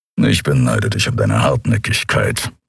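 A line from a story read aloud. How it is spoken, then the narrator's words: Low grumble. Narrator (German): brummte Kero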